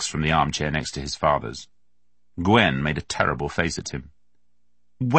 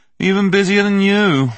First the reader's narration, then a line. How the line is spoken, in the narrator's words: Max said lazily